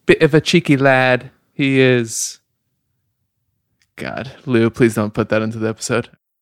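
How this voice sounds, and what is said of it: Bad put-on British accent. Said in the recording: “your British accent is so bad... It's so unrealistic... That's not terrible. It's pretty bad.”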